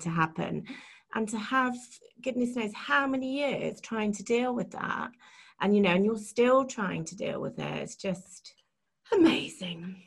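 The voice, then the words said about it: Emotional, choked-up voice. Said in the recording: “got emotional ... I'm getting emotional now”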